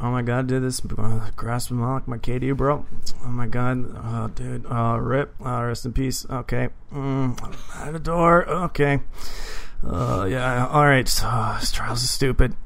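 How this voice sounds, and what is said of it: Mumbling generic gamer voice. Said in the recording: “my generic Destiny player impression ... it's just mumbles”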